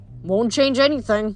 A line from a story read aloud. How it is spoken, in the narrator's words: I said